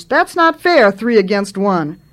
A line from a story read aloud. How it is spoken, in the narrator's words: she shouted at them, outraged